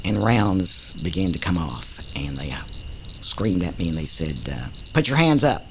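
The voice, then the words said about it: Oklahoma accent. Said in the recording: “from this Okie accent”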